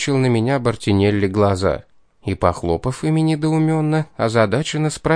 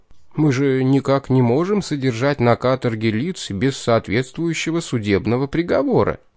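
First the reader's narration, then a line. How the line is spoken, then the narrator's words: Slightly confused. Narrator (Russian): немного растерянно добавил еще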